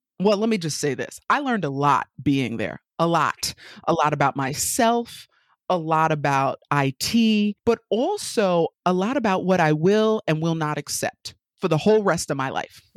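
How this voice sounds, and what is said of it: New York accent. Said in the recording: “Just in case you haven't caught the accent by now, I'm from New York, born and raised.”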